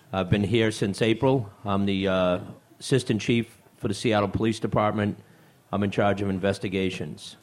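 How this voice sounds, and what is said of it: Boston accent. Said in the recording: “If you can't tell by the accent already, I've spent the first 56 years of my life in Boston.”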